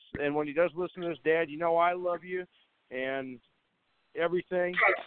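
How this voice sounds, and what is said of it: Choked-up emotional voice. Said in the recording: “getting emotional. I'm getting choked up”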